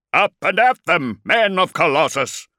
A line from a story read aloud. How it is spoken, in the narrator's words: roared Kulik, without really understanding what he was doing